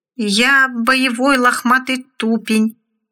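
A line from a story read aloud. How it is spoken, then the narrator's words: Uncertain voice. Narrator (Russian): неуверенным голосом произнес поганец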